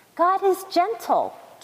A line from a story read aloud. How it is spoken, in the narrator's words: chirped the robin